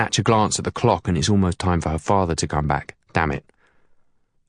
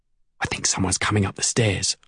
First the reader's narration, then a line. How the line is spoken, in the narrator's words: I whisper